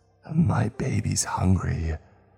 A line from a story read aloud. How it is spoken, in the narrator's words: croaked out from the open cavern of her mouth